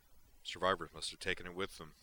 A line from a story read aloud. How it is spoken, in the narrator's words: Sorenzu grunted